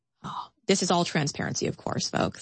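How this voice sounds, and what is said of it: Sarcastic tone. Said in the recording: “I say that sarcastically”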